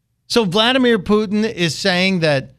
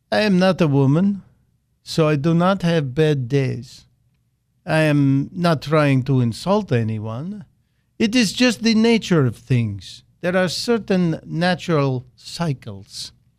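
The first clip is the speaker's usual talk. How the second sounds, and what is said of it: Deliberately bad Russian accent impression. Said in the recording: “I'm going to use my best Vladimir Putin bad accent”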